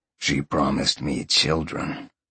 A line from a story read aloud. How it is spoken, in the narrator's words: Sean purred